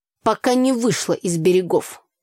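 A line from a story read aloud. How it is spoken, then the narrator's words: Snorting reply. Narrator (Russian): хмыкнул в ответ Митя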